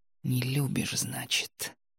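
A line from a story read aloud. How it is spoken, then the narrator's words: Whisper. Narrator (Russian): прошептал он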